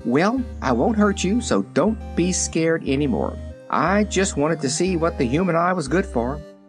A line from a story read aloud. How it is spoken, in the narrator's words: she said quite cheerfully